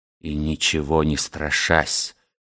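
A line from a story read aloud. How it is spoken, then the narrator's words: Proud, defiant dying rasp. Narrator (Russian): прохрипел Босуэлл, собрав последние силы, чтобы произнести эти гордые, полные непримиримости слова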